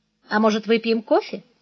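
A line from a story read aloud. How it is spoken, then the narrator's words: Calm smiling offer. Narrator (Russian): Спокойно улыбнувшись, он предложил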